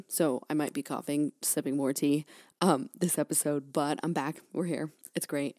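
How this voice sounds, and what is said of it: Raspy voice from a cold. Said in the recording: “I'm just getting over a cold. Like this is the tail end of it. So I sound, really raspy.”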